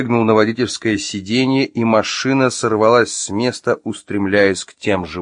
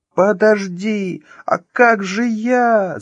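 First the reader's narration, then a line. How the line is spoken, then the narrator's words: Shouting from behind. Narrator (Russian): закричала бежавшая сзади Маша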